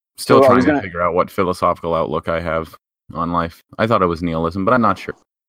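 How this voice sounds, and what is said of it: Speaks with an accent. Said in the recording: “I have an accent.”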